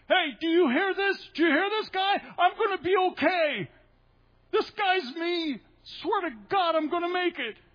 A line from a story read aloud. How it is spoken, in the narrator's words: I wanted to stand up in the room and yell